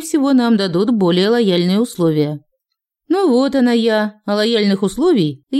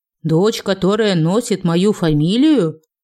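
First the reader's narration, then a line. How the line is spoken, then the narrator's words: Growling. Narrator (Russian): прорычал Леон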